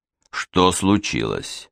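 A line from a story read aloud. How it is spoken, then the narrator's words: Even-voiced inquiry. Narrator (Russian): ровным голосом осведомился он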